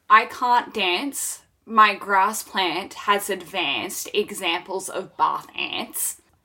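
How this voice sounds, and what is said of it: Australian English accent. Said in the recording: “one of the two of you with an Australian accent”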